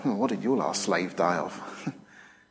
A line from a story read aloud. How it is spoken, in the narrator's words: be muttering under your breath